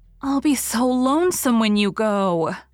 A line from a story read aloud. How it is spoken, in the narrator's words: moaned Diana for the 100th time